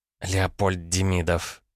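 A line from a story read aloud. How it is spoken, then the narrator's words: Hissed. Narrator (Russian): прошипела Ванда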